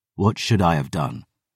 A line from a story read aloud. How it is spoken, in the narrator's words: I growled